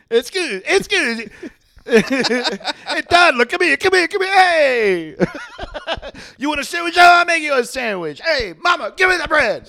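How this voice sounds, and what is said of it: Put-on Italian accent. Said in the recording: “I'm always talking in an Italian accent.”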